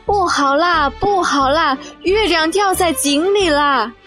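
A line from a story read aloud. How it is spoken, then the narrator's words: Frightened cry. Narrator (Chinese): 大猴子也吓得叫起来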